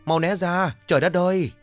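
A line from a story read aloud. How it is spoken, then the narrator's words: Panicked loud shout. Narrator (Vietnamese): hoảng quá hét lớn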